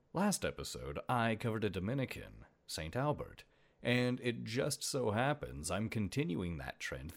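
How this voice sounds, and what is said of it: Hoarse, deeper than usual voice. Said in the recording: “my voice is a little hoarse ... it's a little bit deeper than it normally is”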